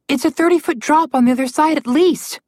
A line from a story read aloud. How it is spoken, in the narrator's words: Alex shouted at him